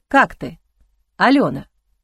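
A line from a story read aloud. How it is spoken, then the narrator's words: Plain. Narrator (Russian): спросил Эгран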